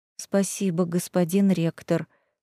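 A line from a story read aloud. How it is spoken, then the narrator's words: Embarrassed whisper. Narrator (Russian): смущенно прошептала я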